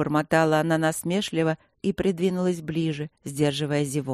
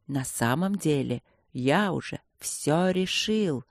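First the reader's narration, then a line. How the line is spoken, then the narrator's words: Haughty whisper. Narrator (Russian): несколько высокомерным шепотом признался Инландер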